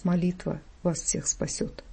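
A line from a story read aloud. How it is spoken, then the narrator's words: Quiet final words. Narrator (Russian): тихо сказал в последний раз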